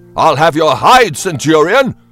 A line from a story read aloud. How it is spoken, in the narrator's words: shouted